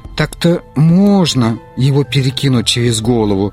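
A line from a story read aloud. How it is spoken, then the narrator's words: Uncertain. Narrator (Russian): сказала неуверенно Бибинур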